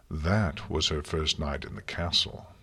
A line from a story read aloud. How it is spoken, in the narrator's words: Celestia said, sighing